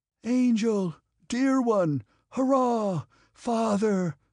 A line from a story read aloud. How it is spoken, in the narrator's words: cried the crowd, and Petya with it